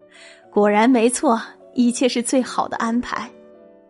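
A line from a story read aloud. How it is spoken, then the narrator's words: Laughing heartily. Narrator (Chinese): 国王忍不住哈哈大笑，说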